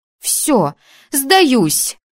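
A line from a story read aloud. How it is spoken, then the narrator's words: Exclaimed. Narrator (Russian): воскликнула я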